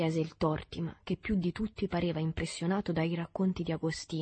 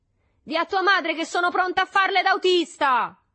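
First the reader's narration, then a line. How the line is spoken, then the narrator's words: Someone shouting. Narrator (Italian): gridò qualcuno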